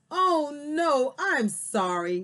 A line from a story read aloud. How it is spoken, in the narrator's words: Daisy exclaimed